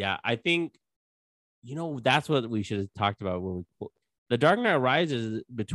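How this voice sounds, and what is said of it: Usual voice. Nothing is said of it.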